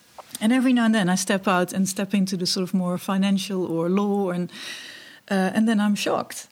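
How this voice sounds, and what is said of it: Foreign accent in English. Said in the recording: “how can you speak such well English but with such an accent?”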